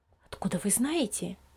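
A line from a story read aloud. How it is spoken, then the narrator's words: Mother's low-voiced question. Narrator (Russian): вполголоса спросила мама Лиза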